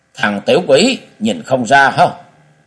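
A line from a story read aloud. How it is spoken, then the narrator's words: Angry shout. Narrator (Vietnamese): giận dữ quát lên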